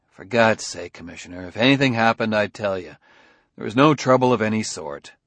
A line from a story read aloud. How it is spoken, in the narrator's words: Bailey said tightly